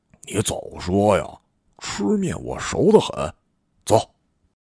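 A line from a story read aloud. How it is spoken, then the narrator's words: Low, eager voice. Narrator (Chinese): 马上低声说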